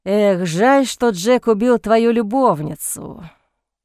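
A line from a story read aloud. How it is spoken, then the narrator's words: Drawling with a smirk. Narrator (Russian): протянул Сент-Мор, усмехнувшись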